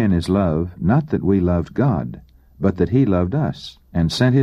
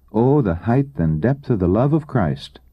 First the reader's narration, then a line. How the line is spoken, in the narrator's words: we can only exclaim